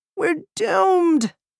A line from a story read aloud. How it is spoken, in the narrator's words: I wailed